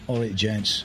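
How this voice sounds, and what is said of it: Attempted Cockney accent, Terry Venables. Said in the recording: “an attempt at Cockney accent”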